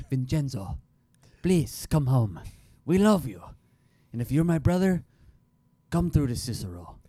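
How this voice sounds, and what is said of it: Put-on Italian accent. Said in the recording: “figure out how to do an Italian accent... read in Italian accent... That was the best I could do”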